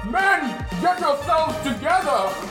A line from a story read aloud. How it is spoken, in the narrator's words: Tito yells out